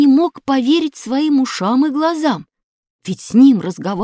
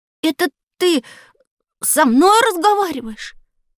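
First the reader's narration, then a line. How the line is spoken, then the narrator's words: Stammering surprised boy. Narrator (Russian): Запинаясь, произнес удивленный мальчик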